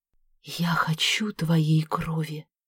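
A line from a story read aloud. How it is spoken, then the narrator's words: Muffled laugh. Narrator (Russian): Профессор глухо засмеялся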